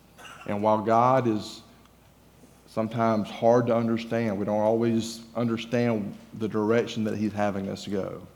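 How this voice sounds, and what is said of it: Southern US Georgia accent. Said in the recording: “I'm from Georgia ... my accent may give me away a little bit”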